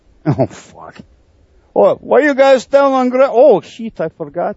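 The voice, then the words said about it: Put-on Slovak accent. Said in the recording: “Where did you get that accent? ... It just all of a sudden became Slovak”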